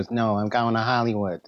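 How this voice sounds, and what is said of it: Imitates another person's voice. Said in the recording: “my impression of him”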